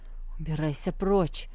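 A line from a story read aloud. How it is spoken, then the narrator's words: Hoarse voice. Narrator (Russian): хрипло проговорил он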